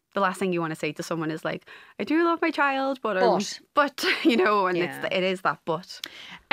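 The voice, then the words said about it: Liverpool accent. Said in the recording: “So there's a Liverpool accent there ... I am originally from the Wirral, which is just over the water from Liverpool”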